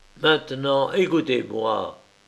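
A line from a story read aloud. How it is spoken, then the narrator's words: Paternal tone. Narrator (French): dit-il d'un ton paternel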